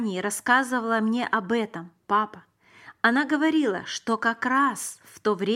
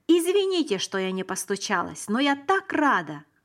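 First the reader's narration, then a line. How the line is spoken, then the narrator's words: Glad exclamation. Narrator (Russian): воскликнула она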